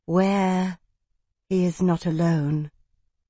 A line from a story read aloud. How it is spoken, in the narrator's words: From behind Fidelius, Odiana murmured